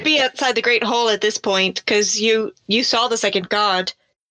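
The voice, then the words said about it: Speaking in a character voice. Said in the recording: “Why am I talking in my character voice?”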